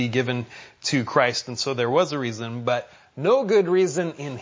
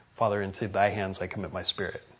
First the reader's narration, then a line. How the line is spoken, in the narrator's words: he quietly prayed to his Father